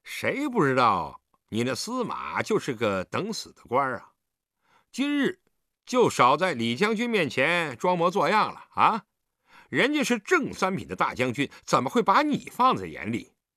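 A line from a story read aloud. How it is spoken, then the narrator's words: Laughing teasingly. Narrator (Chinese): 吴之飞 摇头笑着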